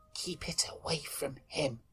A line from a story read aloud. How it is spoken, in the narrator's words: He paused and then whispered